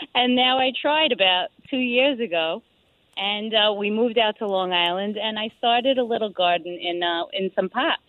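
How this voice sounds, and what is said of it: New York accent. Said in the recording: “I'm detecting a New York accent.”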